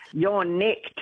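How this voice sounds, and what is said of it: Broad Australian accent, poor attempt. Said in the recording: “That's terrible. I can't do it, actually. I'm terrible. I sound just like a bogan Aussie, like trying to arrest someone.”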